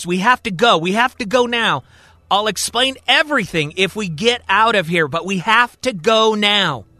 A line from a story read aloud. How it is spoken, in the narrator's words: Abe yells